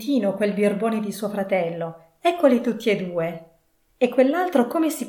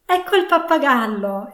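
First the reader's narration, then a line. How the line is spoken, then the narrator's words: Exclaimed. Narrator (Italian): esclamò Scrooge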